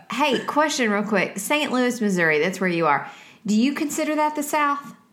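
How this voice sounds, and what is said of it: Southern American accent. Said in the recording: “your cute accents ... say it Southern”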